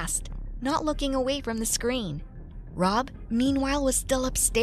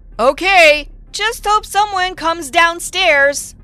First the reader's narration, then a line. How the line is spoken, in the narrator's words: To give the boy a sign, I said loudly